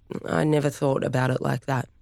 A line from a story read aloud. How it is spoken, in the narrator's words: he said quietly